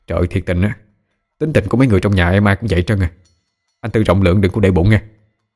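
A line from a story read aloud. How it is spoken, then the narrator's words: Flustered apologizing. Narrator (Vietnamese): Căng rối rít xin lỗi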